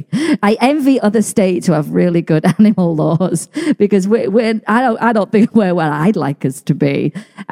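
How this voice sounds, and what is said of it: Non-American English accent. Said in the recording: “I'm not from the States, as you know, by the accent”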